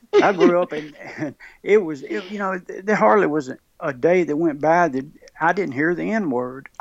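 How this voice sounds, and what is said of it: Mississippi accent. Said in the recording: “growing up in the state of Mississippi ... I'm sorry with my accent. We have a tendency to say Mississippi.”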